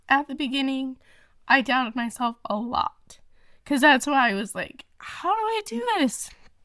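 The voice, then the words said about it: Emotional, wavering voice. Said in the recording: “I don't know why I'm getting emotional.”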